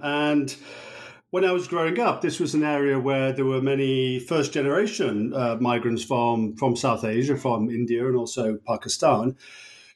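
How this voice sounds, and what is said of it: English Birmingham-area accent. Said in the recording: “as one might tell from my accent, I grew up in England and near the city of Birmingham”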